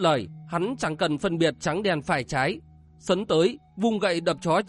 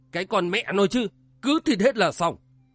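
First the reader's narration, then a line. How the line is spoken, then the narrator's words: Raised voice, middle-aged beggar. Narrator (Vietnamese): Một tên trung niên hóa tử cao giọng nói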